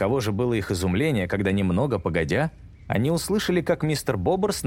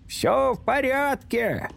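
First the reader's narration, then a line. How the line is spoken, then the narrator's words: Shouting. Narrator (Russian): кричал он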